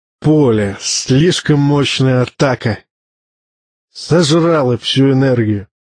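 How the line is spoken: Furious hiss. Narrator (Russian): Тумиду шипел от злости, стервенея

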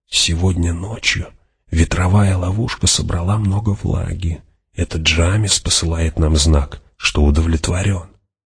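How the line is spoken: Quiet explanation. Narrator (Russian): Фримен, шедший следом, негромко объяснил

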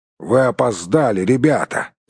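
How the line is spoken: Grumbling. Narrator (Russian): проворчал он

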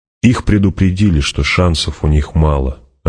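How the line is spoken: Plain. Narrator (Russian): ответил Пауль

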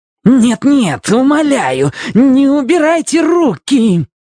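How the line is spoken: Shrill, vile shriek. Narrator (Russian): Завизжал чей-то удивительно гнусный голос

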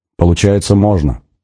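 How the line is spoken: Sigh. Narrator (Russian): вздохнула Надя

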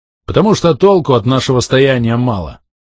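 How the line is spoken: Snorting. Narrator (Russian): хмыкнул тот

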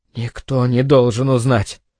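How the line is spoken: Hoarse whisper up close. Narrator (Russian): хрипло прошептал он мне в лицо

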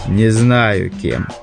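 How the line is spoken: Cold reply after pause. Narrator (Russian): выдержав долгую паузу, холодно ответил Завулон

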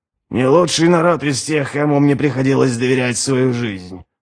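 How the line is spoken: Muttering. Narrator (Russian): пробормотал Ральф

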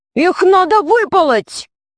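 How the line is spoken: Shout. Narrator (Russian): закричал Аркаша

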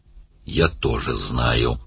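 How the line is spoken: Hissed. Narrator (Russian): прошипел Оттор

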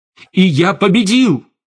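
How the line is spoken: Shout. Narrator (Russian): выкрикнул Штейн

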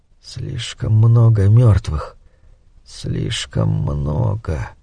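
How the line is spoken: Whisper. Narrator (Russian): прошептал

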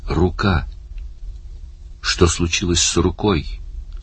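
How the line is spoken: Weak questioning voice. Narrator (Russian): слабым голосом спросил Барни

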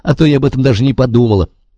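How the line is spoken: Sarcastic. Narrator (Russian): язвительно говорит Генриетта

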